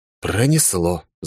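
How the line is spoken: Sighing. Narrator (Russian): вздохнул я

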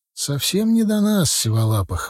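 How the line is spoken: Sigh. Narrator (Russian): вздохнул я

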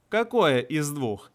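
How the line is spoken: Laughing young woman. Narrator (Russian): засмеялась девушка

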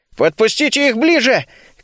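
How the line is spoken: Shouted. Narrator (Russian): крикнул я

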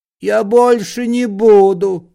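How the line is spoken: Pleading. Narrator (Russian): взмолился Паниковский

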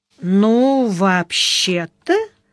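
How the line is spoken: Drawl. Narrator (Russian): протянула Яна

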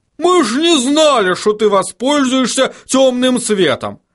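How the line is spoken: Barking. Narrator (Russian): рявкнул хороша гора

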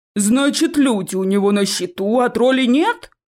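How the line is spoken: Elder's roar. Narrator (Russian): взревел старший

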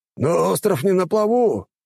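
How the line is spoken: Exclamation. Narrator (Russian): воскликнул Торан

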